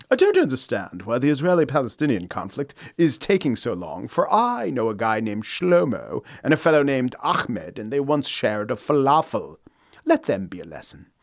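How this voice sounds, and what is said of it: Exalted English accent, dumb guy. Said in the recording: “my classic dumb guy accent... I will now say the dumb guy thing in the exalted English accent”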